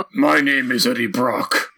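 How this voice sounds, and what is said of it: Gravelly imitated movie character voice. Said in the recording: “someone speaks in a gravelly voice”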